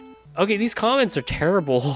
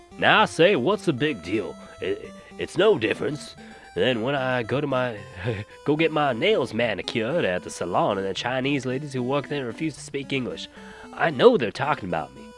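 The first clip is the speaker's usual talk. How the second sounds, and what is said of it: Put-on Southern drawl. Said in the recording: “Let's read the next comment in a... Southern drawl.”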